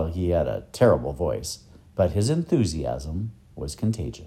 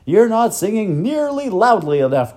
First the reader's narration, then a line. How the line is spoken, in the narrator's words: cried the professor